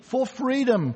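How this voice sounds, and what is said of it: Put-on Scottish accent. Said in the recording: “It's the Braveheart quote, yes, at best with a Scottish accent.”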